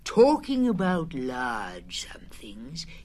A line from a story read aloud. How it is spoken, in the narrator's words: went on dreamily